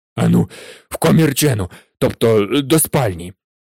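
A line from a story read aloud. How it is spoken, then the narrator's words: Hoarse. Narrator (Ukrainian): Прохрипів він Гаррі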